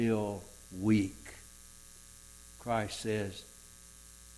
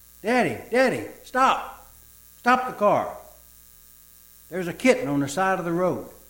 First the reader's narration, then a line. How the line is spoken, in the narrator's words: Suddenly, the two children begin yelling